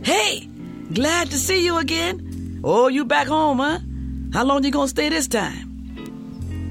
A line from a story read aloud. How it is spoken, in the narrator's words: everybody would start waving and yelling